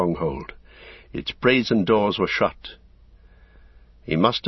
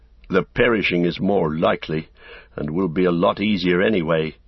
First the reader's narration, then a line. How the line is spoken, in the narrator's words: he said grimly to himself